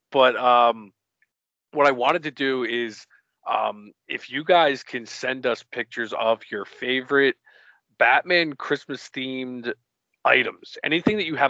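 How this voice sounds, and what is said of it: Congested voice from a cold. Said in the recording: “I am fighting a cold today, so if I'm a little, I sound a little different, or I'm, you know, clearing my throat a little bit”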